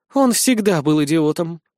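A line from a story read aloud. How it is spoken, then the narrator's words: Sincere sigh. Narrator (Russian): искренне вздохнула девушка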